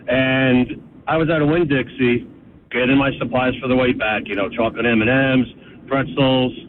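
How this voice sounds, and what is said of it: New Jersey accent. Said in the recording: “they know my accent, the way I talk... your Jersey accent”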